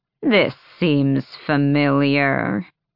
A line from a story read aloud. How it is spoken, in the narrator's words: her grandmother drawled